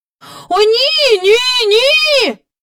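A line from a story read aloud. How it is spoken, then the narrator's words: Children crying out together. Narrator (Ukrainian): закричала трійнята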